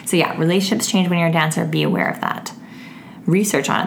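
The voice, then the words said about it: Gravelly, worn-out voice. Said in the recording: “my voice is getting a little extra gravelly ... I've been talking so much lately that my voice is just, it's getting to its end”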